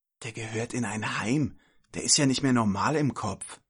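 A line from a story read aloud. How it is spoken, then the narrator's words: Whispered. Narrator (German): wisperte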